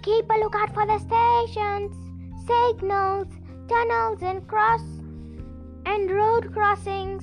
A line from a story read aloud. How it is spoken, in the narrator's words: yelled the station guard